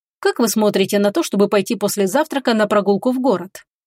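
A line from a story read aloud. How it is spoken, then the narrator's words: Abrupt. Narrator (Russian): Резко сменил он тему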